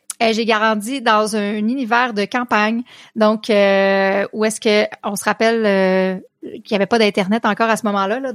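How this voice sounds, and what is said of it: Québécois French accent. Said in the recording (French): “tout le monde a entendu que tu avais un, un, un accent ... j'habite au Québec, province du Canada”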